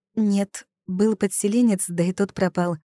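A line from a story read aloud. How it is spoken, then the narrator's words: Laughing. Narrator (Russian): рассмеялась я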